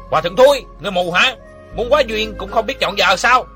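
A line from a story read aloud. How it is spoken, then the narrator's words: Scolding shout. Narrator (Vietnamese): Trong đám rước dâu có người quát mắng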